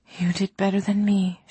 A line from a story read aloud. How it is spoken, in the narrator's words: she replied softly